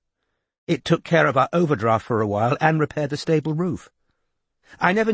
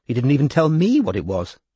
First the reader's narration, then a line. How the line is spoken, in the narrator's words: said Kinvara